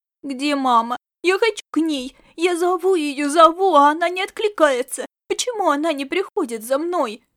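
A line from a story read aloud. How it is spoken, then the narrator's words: Sobbing, choking on tears. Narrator (Russian): Рыдал он, захлюбываясь слезами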